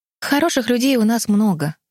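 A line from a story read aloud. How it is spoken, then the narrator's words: Sighing. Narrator (Russian): вздохнула Химена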